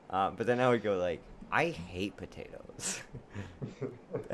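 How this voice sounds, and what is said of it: Usual voice. Nothing is said of it.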